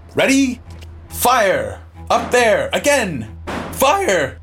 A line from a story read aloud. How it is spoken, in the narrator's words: Piercy shouting